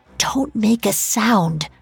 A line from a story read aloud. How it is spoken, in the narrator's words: she whispered